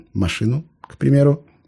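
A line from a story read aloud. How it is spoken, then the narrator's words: Timid interjection. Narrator (Russian): робко вклинился майор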